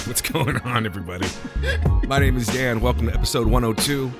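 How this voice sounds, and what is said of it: Sick-sounding voice. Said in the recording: “You can tell by my voice I'm a little bit sick”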